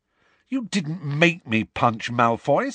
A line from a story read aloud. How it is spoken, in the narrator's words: said Harry angrily